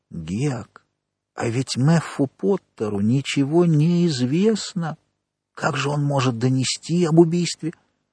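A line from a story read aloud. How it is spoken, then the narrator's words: Barely audible. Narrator (Russian): Том сказал еле слышно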